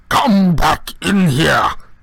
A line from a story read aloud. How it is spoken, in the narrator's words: he bellowed